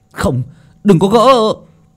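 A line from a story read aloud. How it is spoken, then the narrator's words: Group shouting. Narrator (Vietnamese): những người khác hét lên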